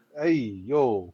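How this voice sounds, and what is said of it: Put-on Brooklyn accent. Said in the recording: “my Brooklyn accent”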